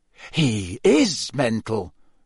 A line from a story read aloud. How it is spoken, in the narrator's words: Fred said in an almost awed voice